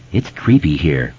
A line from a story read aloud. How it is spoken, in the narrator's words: Ben said quietly